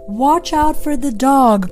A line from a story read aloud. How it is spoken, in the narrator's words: cried the sheep